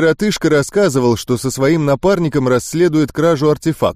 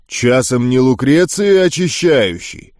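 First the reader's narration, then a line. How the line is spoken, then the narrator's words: Deep bass voice. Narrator (Russian): Пробасил он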